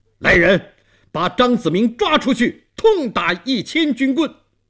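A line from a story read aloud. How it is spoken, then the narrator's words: Stern shout. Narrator (Chinese): 东王厉声喊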